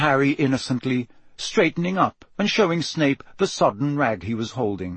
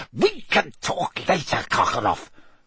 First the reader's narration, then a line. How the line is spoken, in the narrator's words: spat Snape